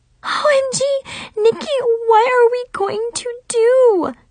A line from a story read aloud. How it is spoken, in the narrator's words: Zoe moaned